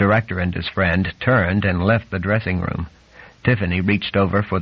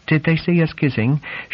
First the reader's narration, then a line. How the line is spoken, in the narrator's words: asked anxiously